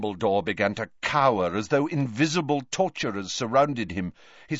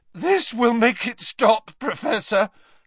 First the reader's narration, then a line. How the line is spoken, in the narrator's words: Harry said, his voice cracking